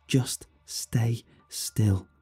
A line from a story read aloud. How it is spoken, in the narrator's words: she whispered